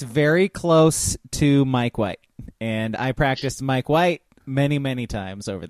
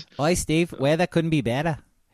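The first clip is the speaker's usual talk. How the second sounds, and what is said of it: Put-on Australian accent. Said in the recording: “Australian accents”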